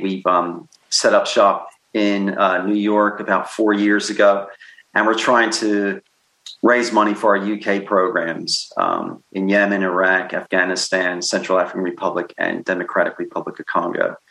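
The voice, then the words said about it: Mixed American-British accent. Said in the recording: “where the hell is that guy's accent from? Well, I was born in Philadelphia, and I've been living in the UK for 30 years. So my accent is probably somewhere over the North Atlantic, you know, indescribable maybe.”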